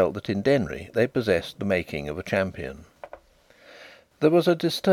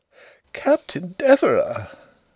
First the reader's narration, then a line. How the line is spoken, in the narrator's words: exclaimed several voices